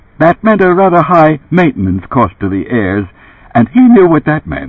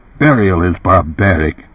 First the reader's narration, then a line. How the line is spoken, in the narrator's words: Herbert muttered aloud